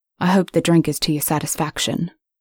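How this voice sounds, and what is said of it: British male accent. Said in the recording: “accent confirmed. ... You're British”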